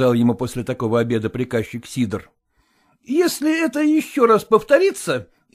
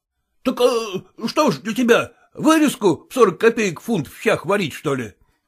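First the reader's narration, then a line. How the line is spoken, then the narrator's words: Exclamation. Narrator (Russian): воскликнул он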